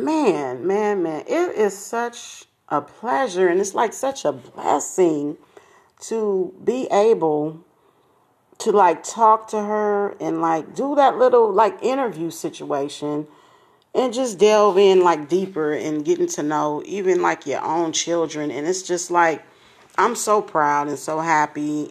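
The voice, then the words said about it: Smiling, happy voice. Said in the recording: “you can hear the smile in my voice.”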